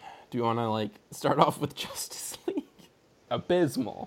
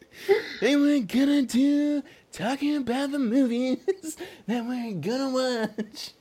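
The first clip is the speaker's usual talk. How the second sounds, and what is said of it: Imitates another person's voice. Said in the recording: “pretty good Bob Dylan impression”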